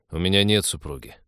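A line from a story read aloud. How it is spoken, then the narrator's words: Grumbling. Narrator (Russian): буркнул капитан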